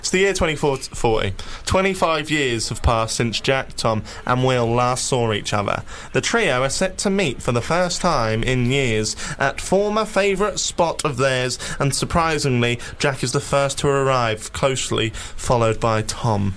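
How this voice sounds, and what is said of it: Robbie Knox narrator voice impression. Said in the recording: “try and do a Robbie Knox voice because he's good when he narrates”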